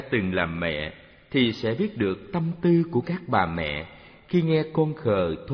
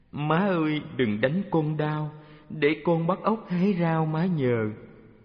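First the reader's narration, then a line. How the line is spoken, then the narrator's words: Child whimpering. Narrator (Vietnamese): con trẻ mếu máo nói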